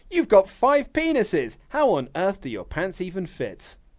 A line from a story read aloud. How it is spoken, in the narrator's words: Surprised, the doctor exclaims